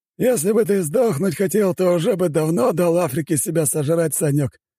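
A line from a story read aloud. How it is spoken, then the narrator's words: Ghost snorting. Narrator (Russian): хмыкнул призрак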